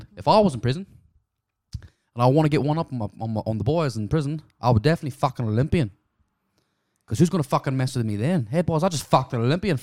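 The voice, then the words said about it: Put-on Australian accent, loud. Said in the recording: “this is my best Australian accent ... That was way too loud.”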